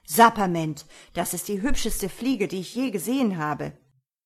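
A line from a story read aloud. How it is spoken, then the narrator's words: Unrestrained exclamation. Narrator (German): konnte Mistifax sich nicht halten und rief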